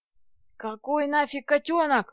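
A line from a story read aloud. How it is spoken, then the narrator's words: Yelling. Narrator (Russian): завопил Федя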